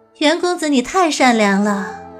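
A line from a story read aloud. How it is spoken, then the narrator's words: Sighing. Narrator (Chinese): 韦飞烟叹道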